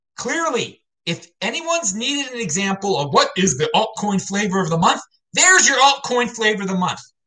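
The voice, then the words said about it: Yelling, loud excited voice. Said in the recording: “I'm yelling about it? Why, why yell about it?”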